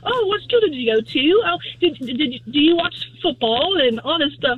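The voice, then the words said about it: Good put-on English accent. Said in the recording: “your accent's on point. That was actually really good.”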